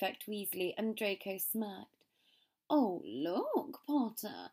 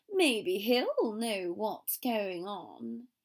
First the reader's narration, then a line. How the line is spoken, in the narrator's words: he drawled